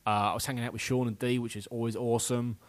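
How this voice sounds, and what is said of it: English accent. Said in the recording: “everyone loved my accent ... enjoying being away from England”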